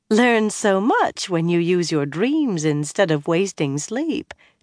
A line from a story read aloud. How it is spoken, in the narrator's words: Tamile was saying with a Kyrianan accent, laughing